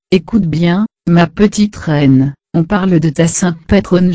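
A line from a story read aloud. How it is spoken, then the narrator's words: Speaking very softly. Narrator (French): papa me disait tout bas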